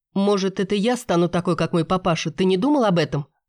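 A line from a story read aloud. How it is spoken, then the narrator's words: Snapping retort. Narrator (Russian): огрызнулась я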